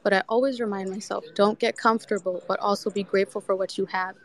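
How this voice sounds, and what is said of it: Talking very fast. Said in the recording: “I'm talking so fast. I've drank like 500 gallons of coffee”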